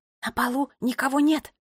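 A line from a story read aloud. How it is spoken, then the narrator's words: Whispered. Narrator (Russian): прошептала Нола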